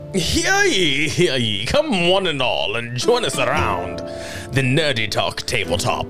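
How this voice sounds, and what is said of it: Put-on British accent. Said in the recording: “Do it in a British accent.”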